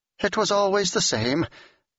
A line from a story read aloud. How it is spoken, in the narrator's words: Janice laughed